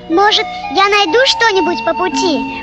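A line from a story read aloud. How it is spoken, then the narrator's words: Excited squeaking mouse. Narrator (Russian): пропищал возбужденный мышонок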